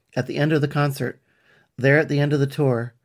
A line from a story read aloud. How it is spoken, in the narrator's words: Hope called out to everyone present